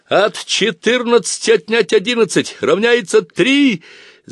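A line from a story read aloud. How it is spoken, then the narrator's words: Shouting over imagined cannon fire. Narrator (Russian): закричал я так, словно вокруг и в самом деле гремела канонада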